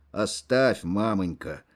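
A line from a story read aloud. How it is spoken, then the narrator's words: Dry remark. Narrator (Russian): сухо заметил Кожин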